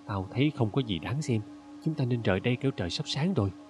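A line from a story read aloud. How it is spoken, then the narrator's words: Soft. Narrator (Vietnamese): Hotep nói khẽ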